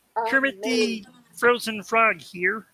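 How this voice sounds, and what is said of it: Bad Kermit the Frog impersonation. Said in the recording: “that bad impersonation of Kermit the Frog being frozen”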